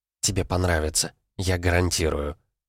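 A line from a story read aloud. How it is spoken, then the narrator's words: Whisper into ear. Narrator (Russian): на ушко прошептала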